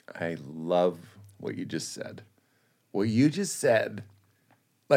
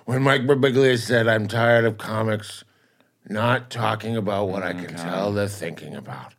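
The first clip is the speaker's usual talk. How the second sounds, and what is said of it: Imitates another person's voice. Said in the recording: “I'll talk like my dad.”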